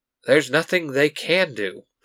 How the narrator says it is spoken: Tommy says with a sigh

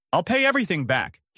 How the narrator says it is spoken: he shouts

